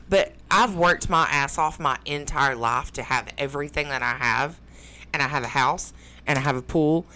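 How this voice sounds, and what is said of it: Southern American accent. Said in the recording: “my southern accent that makes me sound dumb”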